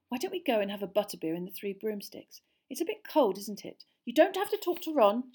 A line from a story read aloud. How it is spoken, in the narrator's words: she added, irritably